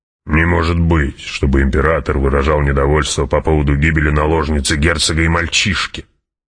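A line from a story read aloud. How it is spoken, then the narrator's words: Baron's mutter. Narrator (Russian): пробормотал барон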